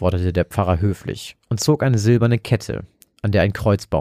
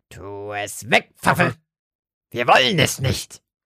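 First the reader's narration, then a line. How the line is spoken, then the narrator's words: Croaked. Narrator (German): krächzte Lotte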